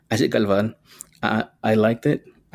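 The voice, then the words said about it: Speaks in his true native accent. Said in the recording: “I'm going to say it with my true accent.”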